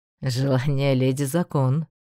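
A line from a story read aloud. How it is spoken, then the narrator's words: Snort. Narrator (Russian): хмыкнул темный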